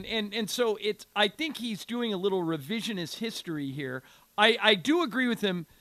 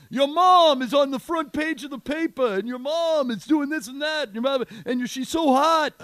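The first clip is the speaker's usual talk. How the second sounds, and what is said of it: New York accent. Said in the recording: “New York accent”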